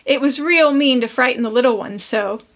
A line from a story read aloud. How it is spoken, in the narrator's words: laughed Prue